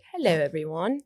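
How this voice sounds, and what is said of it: Put-on British accent. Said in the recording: “talk in a British accent”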